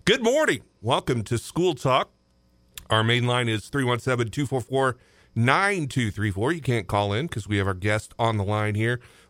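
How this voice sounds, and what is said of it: Slightly hoarse voice. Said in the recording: “my voice has decided that it wants to be a little hoarse this morning”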